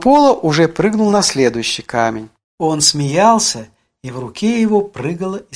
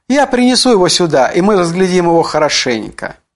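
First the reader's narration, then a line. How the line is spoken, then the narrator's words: Exclaiming. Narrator (Russian): Пола воскликнул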